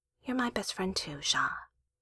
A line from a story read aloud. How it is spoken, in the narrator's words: she whispered back